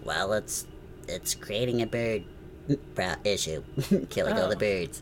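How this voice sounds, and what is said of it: Donald Trump impression. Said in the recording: “my Donald Trump impression”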